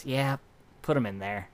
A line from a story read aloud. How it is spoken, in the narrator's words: Hilda sighs and just goes